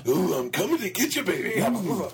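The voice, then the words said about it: Wrestler impression voice. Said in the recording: “Ooh, Hogan ... doing a wrestling impersonation”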